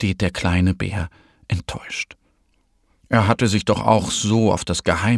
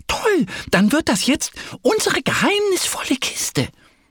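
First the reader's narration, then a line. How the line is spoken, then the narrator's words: Called out. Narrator (German): Annie klatscht und ruft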